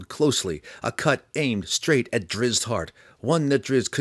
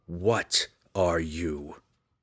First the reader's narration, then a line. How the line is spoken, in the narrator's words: The spirit wraith snarled